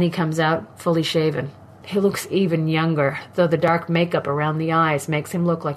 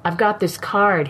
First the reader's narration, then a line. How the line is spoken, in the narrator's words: he says